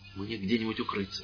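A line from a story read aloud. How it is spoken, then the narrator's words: Priest whispering. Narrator (Russian): зашептал священник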